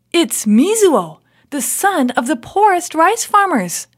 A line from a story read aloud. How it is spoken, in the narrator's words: they exclaimed